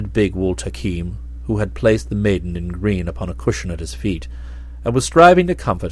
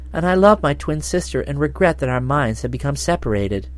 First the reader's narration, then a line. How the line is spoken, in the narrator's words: she continued sadly